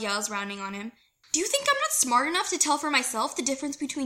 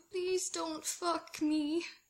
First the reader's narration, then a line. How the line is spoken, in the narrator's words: Scott pleads quietly, in horror